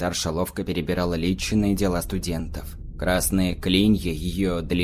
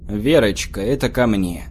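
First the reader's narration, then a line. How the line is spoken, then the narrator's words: Deep voice through door. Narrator (Russian): пробасил голос из-за приоткрытой двери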